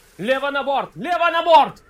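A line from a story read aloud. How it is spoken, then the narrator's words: Yell. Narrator (Russian): заорал Торрин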